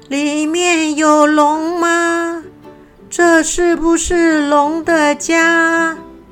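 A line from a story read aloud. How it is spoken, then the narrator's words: Loud reckless call. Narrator (Chinese): 不顾一切的朝着洞穴大声的问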